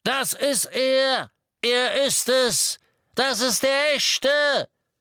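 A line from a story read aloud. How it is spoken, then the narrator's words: Shout over roaring engine. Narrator (German): Der Ruf des kapuzten, vermummten Todessers drang sogar über das Donnern des Motorradmotors hinweg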